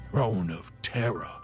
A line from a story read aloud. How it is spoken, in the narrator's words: gasped Sabinus, battling the urge to vomit